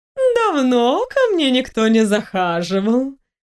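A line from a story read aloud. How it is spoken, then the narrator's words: High-pitched, drawn out. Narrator (Russian): высоким голосом протянула она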